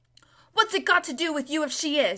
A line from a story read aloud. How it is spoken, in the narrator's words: said, fiercely